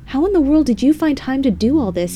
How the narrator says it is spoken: he shouted from upstairs

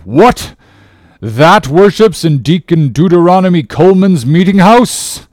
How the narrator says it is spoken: cried Bildad

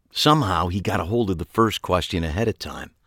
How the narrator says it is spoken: I explained quietly

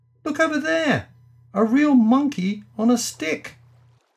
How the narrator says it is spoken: A rude boy on the bank immediately called out to his chum

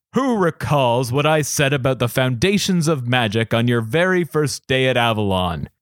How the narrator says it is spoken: he boomed

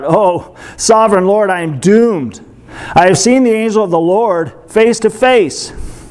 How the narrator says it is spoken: When Gideon realized that it was the angel of the Lord, he cried out

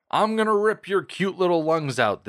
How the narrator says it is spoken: the Deacon yelled at her

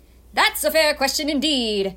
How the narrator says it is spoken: shouted

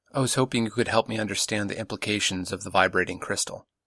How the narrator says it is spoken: she said quietly

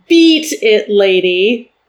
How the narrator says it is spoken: Prince Prasica stood straight up in the tray and said in a deep green voice

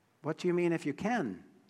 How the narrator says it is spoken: Jesus asked

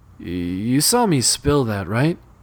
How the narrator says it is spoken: Jake asked hesitantly

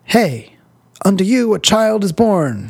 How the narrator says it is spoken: she hollered, as if it was, for sure, the best news in the world

